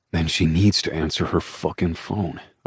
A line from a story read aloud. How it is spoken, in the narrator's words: I muttered